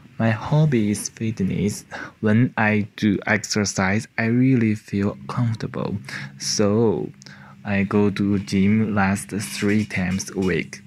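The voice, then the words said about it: Non-native English accent. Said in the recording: “through my accent, smart as you must already know which country I come from”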